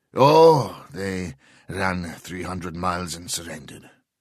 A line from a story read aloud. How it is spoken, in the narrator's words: Granovitz replied dryly